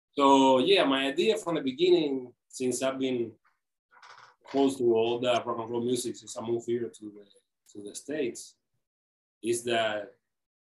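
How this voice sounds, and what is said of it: Cuban accent in English. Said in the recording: “I'm Cuban, so sorry for my accent.”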